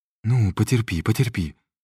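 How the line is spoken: Trembling voice. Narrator (Russian): дрожащим голосом произнес Виктор

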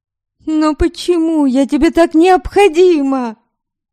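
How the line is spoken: Desperate exclamation. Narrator (Russian): В отчаянии воскликнула она

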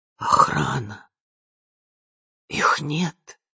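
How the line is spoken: Hoarse rasp. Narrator (Russian): прохрипела она

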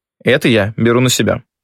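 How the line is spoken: Plain. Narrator (Russian): сказала Катя

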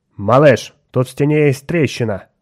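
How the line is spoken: Harsh metallic voice. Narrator (Russian): резким металлическим голосом отозвался мозг

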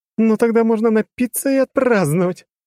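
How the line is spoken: Laughing loudly. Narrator (Russian): расхохоталась она

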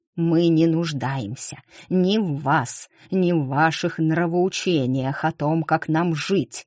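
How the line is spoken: Hissed. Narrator (Russian): прошипел мэр

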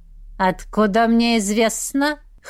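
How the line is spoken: Witch's snort. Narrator (Russian): Хмыкнула ведьма

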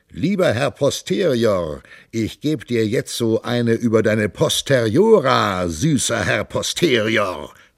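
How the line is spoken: Calling out. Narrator (German): der Mönch rief

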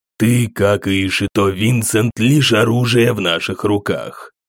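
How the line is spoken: Calm. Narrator (Russian): спокойно сказал Джандал

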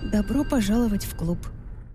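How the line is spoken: Quiet, suppressed sarcasm. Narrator (Russian): Я подавила саркастичный смешок, застрявший у меня в горле, и негромко произнесла

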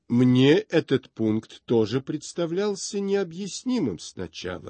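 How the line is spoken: Plain. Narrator (Russian): ответил он

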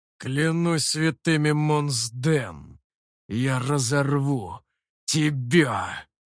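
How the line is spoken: Hoarse, choking rage. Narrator (Russian): Захлебываясь слюной, хрипел я

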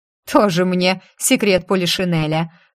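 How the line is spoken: Snorting. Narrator (Russian): фыркнула бабушка

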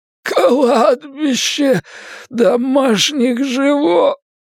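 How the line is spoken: Young man's groan. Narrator (Russian): простонал парень

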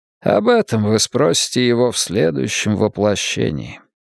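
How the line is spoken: Tired. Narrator (Russian): устало произнес Сол

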